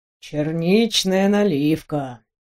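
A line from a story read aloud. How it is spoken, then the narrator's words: Muttering. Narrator (Russian): пробормотал Максимилиан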